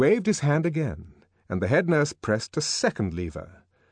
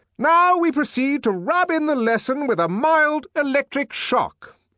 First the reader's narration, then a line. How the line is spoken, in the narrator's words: the director shouted, for the noise was deafening